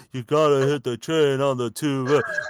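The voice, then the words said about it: Mumble rap imitation. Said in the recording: “He does his Future shit of like the mumble rap... What is this Mickey Mouse impersonation you're doing”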